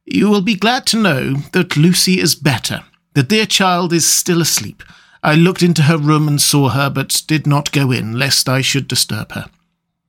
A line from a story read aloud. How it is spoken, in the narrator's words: She greeted us warmly and said